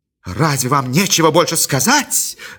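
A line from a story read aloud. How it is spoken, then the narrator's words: Exclamation. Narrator (Russian): воскликнула Чарити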